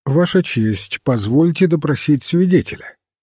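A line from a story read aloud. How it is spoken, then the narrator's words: Completely calm. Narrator (Russian): королевский адвокат Батлер совершенно спокойно сказал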